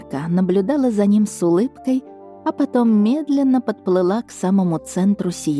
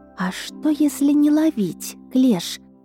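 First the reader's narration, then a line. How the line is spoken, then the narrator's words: Quiet suggestion. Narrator (Russian): тихо предложила она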